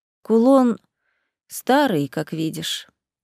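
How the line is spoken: Sad sigh. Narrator (Russian): вздохнула мама, и Рита уловила в ее голосе грусть

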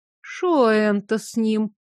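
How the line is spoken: Thoughtful drawl. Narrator (Russian): задумчиво протянула Евпроксинья

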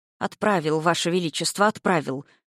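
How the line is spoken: Mumbled. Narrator (Russian): пробормотал Вяземский

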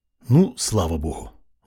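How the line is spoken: Relieved exhale. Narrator (Russian): выдохнул Алексей

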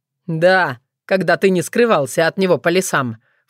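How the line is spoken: Snorted. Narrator (Russian): фыркнул Соколовский

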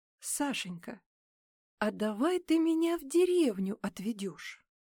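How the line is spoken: Forced calm, suppressed anger. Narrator (Russian): Она пыталась с ним разговаривать спокойно, хотя внутри все кипело

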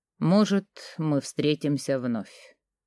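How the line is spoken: Quiet farewell. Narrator (Russian): тихо произнес на прощание

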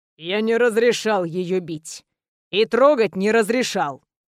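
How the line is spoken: Perfectly even voice. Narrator (Russian): продолжил Грех совершенно ровным голосом

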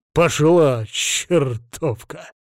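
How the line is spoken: Gruff mutter. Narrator (Russian): буркнул он

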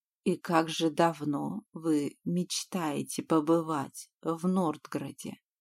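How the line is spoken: Whispered close to ear. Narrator (Russian): прошептал Веланд, наклоняясь к моему уху

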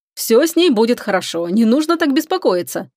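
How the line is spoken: Cheerful. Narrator (Russian): весело сказал он

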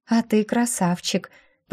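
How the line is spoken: Drawling. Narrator (Russian): протянула

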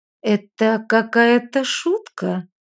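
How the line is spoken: Slow. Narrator (Russian): наконец медленно произнесла она

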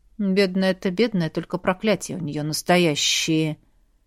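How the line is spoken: Very calm. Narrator (Russian): Произнесено это было так спокойно

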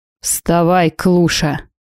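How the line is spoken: Growled. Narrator (Russian): рыкнул муж

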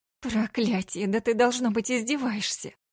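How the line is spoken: Hoarse whisper. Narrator (Russian): Хрипло шепчу я

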